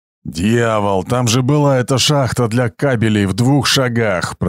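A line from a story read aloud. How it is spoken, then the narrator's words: Growled. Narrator (Russian): прорычал Гром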